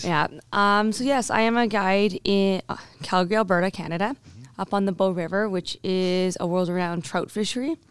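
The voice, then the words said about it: Squeaky, nearly lost voice. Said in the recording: “I've currently almost lost my voice, so I am a little bit squeaky.”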